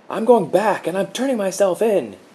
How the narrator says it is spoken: he yelled

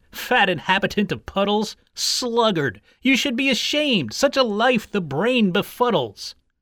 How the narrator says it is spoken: he exclaimed

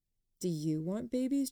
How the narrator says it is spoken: Jamie asked

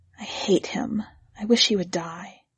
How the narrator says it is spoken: She said softly

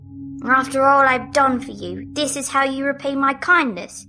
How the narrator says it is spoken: roared

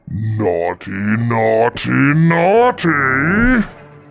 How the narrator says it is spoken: the creature bellowed

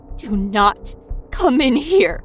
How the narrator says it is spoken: My voice trembled on every word

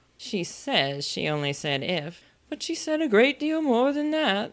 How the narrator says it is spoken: the White Queen moaned

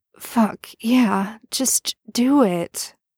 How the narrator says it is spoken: moans, burying his face in the bed

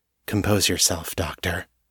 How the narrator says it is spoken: they said softly

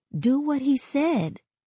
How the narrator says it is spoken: I plead

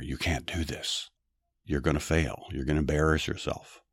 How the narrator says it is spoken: the devil whispering in our ear

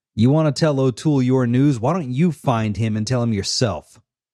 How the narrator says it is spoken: he was speaking a little loudly

